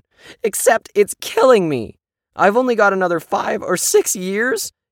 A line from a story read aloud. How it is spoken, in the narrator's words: he cried